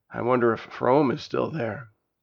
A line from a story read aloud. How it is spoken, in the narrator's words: He sighed a heavy sigh and added